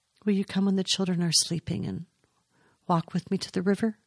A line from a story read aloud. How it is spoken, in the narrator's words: asked